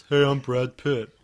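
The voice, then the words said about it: Imitates another person's voice. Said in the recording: “That's all my impressions ... that impression checks out because that's Brad Pitt having to do a voiceover for a theme park”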